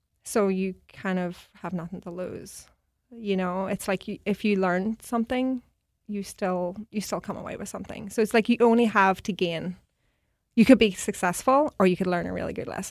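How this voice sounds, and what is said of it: Mixed American and Irish accent. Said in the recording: “My accent's all mixed. I've been all over. ... Missouri, New York, Ireland”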